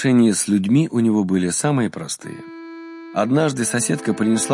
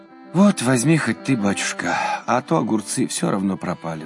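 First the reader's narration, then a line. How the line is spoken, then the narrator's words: Sighing. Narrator (Russian): вздохнула она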